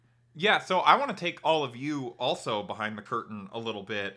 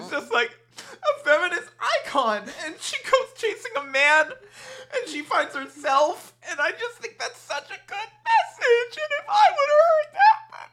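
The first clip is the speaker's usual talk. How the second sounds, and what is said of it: Imitates another person crying. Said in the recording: “my impression of ... that's what it sounds like when you cry”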